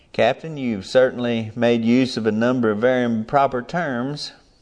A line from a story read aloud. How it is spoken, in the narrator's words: observed calmly